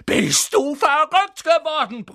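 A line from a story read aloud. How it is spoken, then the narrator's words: Bellowing. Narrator (German): brüllte Ron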